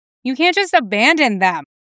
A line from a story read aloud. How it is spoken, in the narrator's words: Tim yelled